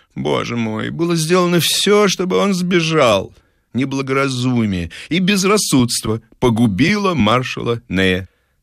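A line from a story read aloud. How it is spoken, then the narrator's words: Bitter exclamation. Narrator (Russian): Людовик XVIII с горечью воскликнул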